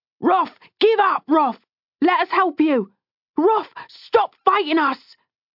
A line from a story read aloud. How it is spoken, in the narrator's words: someone shouted